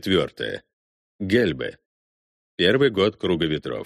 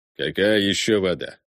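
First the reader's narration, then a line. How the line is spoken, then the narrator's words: Growled. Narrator (Russian): рыкнул Руппи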